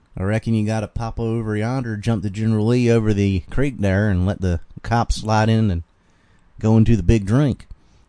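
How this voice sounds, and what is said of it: Southern accent with some twang. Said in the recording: “most of it sounds like how I'm speaking right now. That is the Southern accent ... the amount of twang I have”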